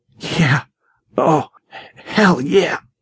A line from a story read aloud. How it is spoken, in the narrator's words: he grunted